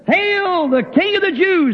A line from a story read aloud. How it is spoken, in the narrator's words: Others saying ... and some hollering